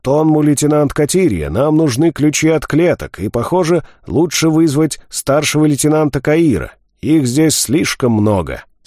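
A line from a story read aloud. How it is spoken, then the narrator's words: Snort then shout. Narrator (Russian): Пламет хмыкнул и крикнул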